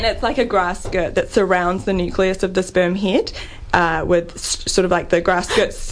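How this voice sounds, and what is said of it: Speaks with a noticeable accent. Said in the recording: “that's probably my accent”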